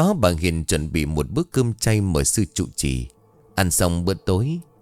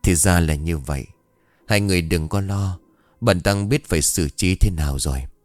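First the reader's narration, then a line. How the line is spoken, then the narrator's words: Sighing. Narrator (Vietnamese): sư trụ trì thở dài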